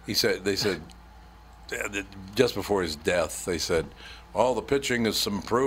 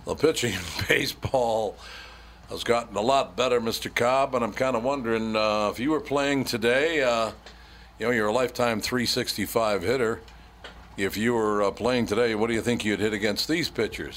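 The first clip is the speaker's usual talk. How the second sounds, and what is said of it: Phony sports announcer voice. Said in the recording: “they all got that phony announcer voice”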